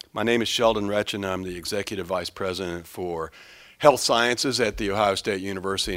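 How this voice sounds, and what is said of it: Slightly gravelly voice. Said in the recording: “My voice is going to sound a little gravelly. I've been fighting a little bit of a cold”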